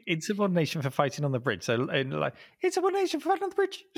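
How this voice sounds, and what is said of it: Very fast, high-pitched video game character voice. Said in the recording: “if you say it really, really fast with a really high-pitched voice ... Nice and fast, nice and high ... That was a perfect impersonation of Liu Kang”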